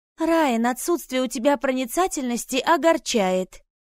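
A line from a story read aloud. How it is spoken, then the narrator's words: Sighed. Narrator (Russian): вздохнула Клэр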